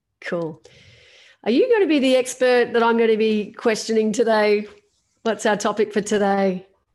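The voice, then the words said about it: Slightly husky voice. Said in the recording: “I've got a bit of a cold. I'm a little bit huskier than normal”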